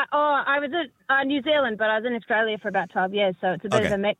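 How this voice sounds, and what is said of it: Australian or New Zealand accent. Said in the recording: “I detect an accent, by the way. Australian, I assume, is it?”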